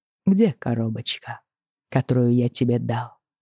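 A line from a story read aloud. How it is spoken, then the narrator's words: Soft question. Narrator (Russian): спрашивает он мягко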